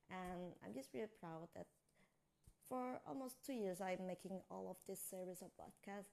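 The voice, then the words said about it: Weird half Australian, half American accent. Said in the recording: “I get a very weird accent. Half Australian, half American, whatever.”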